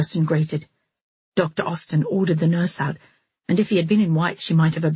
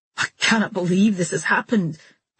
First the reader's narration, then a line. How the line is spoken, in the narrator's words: Harrison exclaimed, his eyes blazing